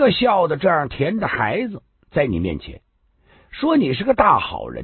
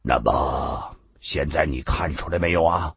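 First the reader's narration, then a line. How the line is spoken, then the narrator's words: Sighing. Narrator (Chinese): 顾道人忍不住叹口气道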